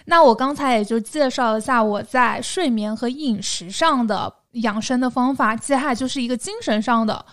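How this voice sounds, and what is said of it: Southern Chinese accented Mandarin. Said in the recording (Chinese): “我的口音还是很南方的，偶尔会产生一些塑料普通话”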